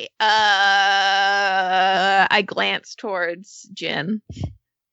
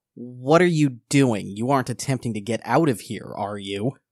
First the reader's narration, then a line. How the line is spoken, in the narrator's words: kind of sneers, and says